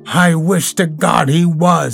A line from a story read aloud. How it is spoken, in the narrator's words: he cried